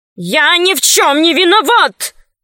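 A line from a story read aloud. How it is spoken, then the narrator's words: Shout. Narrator (Russian): закричал граф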